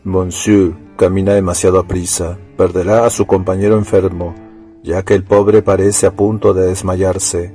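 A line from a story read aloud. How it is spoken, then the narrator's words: Murmured warning. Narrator (Spanish): un hombrecillo le tocó en el hombro, murmurándole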